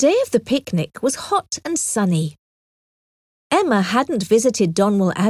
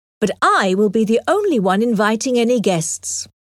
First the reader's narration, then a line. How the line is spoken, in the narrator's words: Knightley firmly